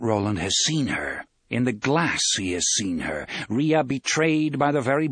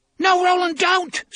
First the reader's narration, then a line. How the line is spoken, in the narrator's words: Susanna screams